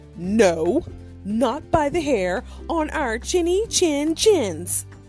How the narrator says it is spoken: shrieked the pigs

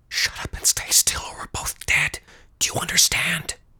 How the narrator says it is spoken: hissed again

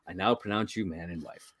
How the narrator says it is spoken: he quietly is like

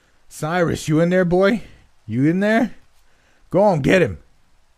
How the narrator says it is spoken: One of the attackers on the outside began to holler

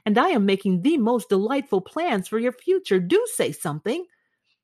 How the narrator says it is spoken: cried Sybil

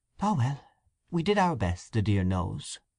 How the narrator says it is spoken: she gave a little sigh, and said

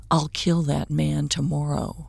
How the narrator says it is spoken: Owen whispered

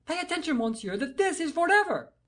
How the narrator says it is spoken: cried the king in tones of sternest menace

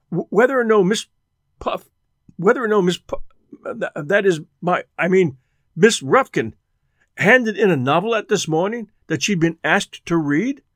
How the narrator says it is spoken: stammered

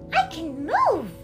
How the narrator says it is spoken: cried

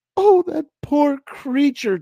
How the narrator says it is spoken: Tina wailed, stunned by the depth of his love that he would sacrifice himself to save her even though he was turning into a monster

